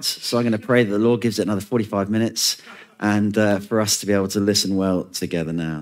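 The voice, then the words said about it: Strained, failing voice. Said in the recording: “Forgive my voice. It's, I think, on the way out.”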